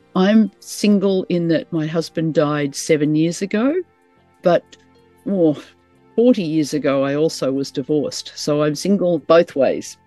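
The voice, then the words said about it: Australian accent. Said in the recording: “I live in Brisbane in Australia. That's why Kim gets me to introduce these, because she likes my accent. So I hope you all like my accent.”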